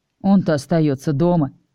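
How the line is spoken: Wry snort. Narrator (Russian): хмыкнул я

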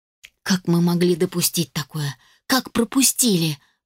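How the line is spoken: Tearful, choked whisper. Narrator (Russian): прошептала я, чувствуя, как на глазах наворачиваются слезы и становится больно дышать

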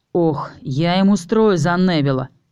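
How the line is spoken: Growled. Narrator (Russian): прорычал Чез

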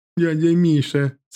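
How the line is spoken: Laughing mimicry. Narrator (Russian): смеясь, передразнил Костю Мишка

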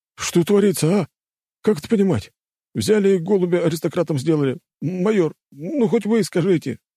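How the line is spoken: Pleading. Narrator (Russian): взмолился

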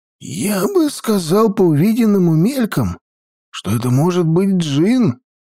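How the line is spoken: Uncertain. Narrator (Russian): неуверенно сказал Тхакун

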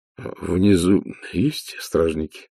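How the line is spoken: Strained, forced out. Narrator (Russian): выдавил из себя Ваймс

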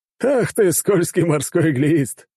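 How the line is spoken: Loud laughter. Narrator (Russian): расхохотался начальник

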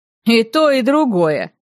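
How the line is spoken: Snorting. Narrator (Russian): хмыкнул Мейс

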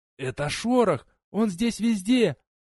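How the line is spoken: Hoarse wheezing reply. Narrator (Russian): прохрипела в ответ миссис Клеменс

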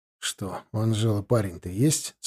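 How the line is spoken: Quiet question. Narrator (Russian): спросил я тихонько

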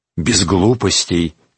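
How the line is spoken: Quiet warning. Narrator (Russian): тихо предупредил Шарлей

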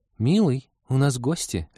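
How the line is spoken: Worried housewife tone. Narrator (Russian): отозвался Искин озабоченным тоном жены домохозяйки, лихорадочно вспоминающей, что в доме есть из еды и надраен ли до блеска унитаз

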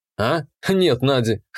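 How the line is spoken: Amused snort. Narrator (Russian): хмыкнул я

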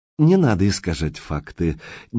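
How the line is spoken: Quiet but insistent. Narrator (Russian): негромко, но с ощутимым нажимом произнес директор

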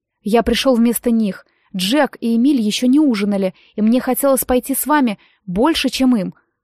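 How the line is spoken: Plain. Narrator (Russian): ответил Дэн

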